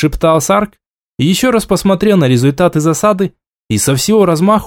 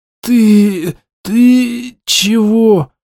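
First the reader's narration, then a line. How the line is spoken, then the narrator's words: Wheezing rasp. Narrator (Russian): прохрипел Тарк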